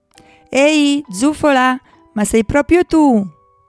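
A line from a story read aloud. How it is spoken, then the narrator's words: Shouting in a dream. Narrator (Italian): gridava Pistacchio nel suo sogno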